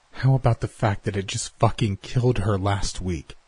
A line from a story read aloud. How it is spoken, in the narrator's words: Mills snarled at him, the anger and fear in her voice